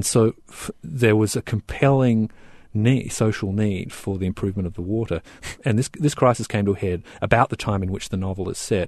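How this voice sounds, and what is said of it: Australian accent. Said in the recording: “As people will hear from your accent, you are from Australia.”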